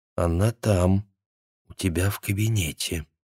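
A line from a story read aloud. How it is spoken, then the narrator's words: Quiet warning voice. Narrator (Russian): сказала тихим предупреждающим голосом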